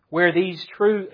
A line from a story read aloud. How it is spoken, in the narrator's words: he says